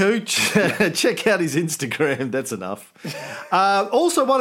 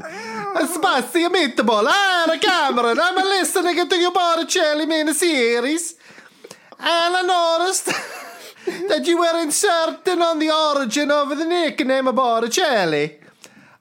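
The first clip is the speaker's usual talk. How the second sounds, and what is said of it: Put-on Italian accent. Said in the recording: “I'm trying to think of what my Italian accent.”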